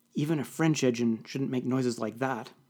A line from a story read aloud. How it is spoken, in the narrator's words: muttered Lefranc